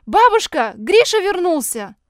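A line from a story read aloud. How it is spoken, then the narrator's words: Shout. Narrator (Russian): крикнула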